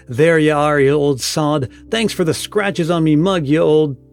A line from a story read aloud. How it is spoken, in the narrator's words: Sam, a cowman, exclaimed tartly